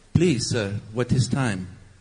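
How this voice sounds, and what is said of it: Put-on vaguely European accent. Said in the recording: “That's a general, maybe European accent.”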